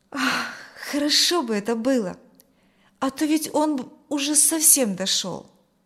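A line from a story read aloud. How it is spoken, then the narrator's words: Sigh. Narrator (Russian): вздохнул Коля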